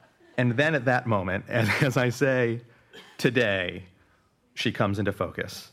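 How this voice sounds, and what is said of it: Usual voice. Nothing is said of it.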